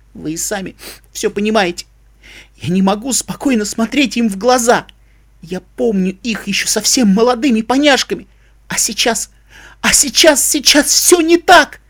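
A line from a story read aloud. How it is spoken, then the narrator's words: Sobbing. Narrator (Russian): Новый приступ рыданий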